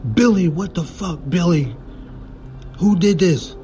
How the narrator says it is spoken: Dean begins to yell in disbelief

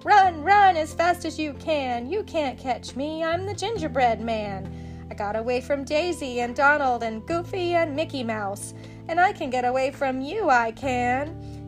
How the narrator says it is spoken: But the gingerbread man laughed and shouted

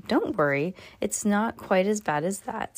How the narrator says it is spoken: says the janitor

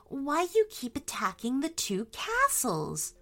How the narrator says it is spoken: asked Grace softly

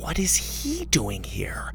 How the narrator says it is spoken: Susie whispered

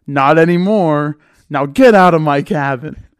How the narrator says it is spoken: yells

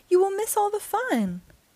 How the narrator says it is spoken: cried Frog

